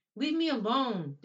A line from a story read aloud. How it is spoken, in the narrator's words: Danny shouted